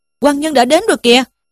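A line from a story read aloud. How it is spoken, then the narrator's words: Crying out. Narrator (Vietnamese): một tên trang khách kêu lên rằng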